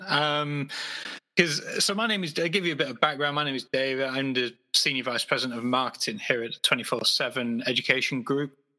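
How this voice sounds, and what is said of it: British accent. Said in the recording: “as you can tell by the accent, I'm from the UK”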